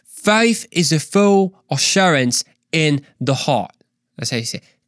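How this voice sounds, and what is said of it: Put-on Australian accent. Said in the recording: “I kind of just want to imitate their accent... someone that's Australian”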